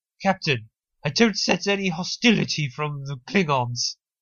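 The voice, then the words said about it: Poor imitation of Deanna Troi's accent. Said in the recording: “That was not a good attempt at her accent. Her accent is weird. ... I'm not sure what accent she's putting on. That's her beta Zoidian accent.”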